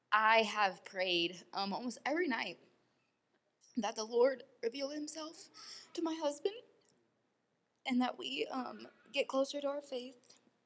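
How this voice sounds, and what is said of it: Emotional, tearful voice. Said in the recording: “I'm going to get emotional, so I'm sorry.”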